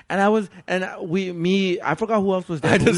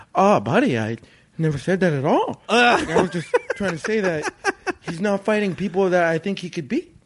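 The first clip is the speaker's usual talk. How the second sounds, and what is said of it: Impression of Pavone. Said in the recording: “Really good impression.”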